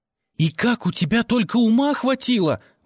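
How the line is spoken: Exclamation. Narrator (Russian): воскликнула я

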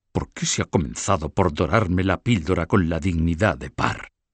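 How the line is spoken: Low voice. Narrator (Spanish): dijo en voz baja

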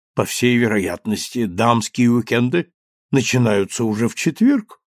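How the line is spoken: Hoarse, good-natured question. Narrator (Russian): спросил судья хрипло, но добродушно

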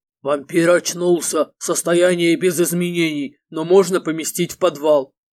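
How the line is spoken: Deep bass voice. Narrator (Russian): другой Альфа пробасил

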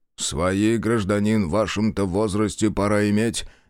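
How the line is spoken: Displeased grumbling. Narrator (Russian): недовольно пробурчал

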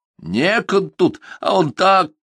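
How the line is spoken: Half-shout dissolving into laughter. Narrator (Russian): Глафира, хотела прикрикнуть и рассмеялся

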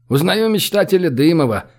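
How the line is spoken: Chuckling. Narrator (Russian): хохотнул Олег

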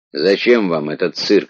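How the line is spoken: Plain. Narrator (Russian): спросил Радзянка

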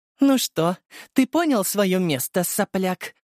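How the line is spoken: Haughty, arrogant. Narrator (Russian): Важным и надменным голосом произнесла Софья

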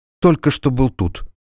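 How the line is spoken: Confused babbling. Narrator (Russian): растерянно пролепетал Олли

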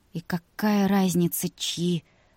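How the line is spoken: Muttered. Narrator (Russian): пробормотала Вика

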